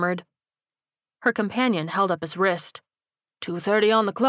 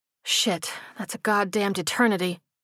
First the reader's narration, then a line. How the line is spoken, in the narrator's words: she sighed